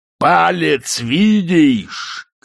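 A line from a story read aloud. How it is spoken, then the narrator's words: Distant shout from hiding. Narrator (Russian): кричал Шэдуэлл, который забился глубоко под лестницу в самом дальнем его углу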